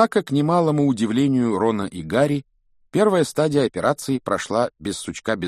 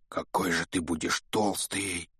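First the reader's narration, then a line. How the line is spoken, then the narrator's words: Whisper. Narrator (Russian): прошептал Рон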